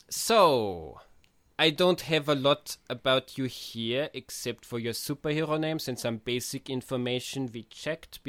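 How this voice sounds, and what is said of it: Austrian accent in English. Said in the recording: “I'm from Austria. ... the speaker device has kept my accent”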